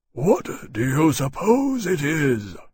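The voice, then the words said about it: Deep rumbling character voice. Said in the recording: “in his rumbling voice.”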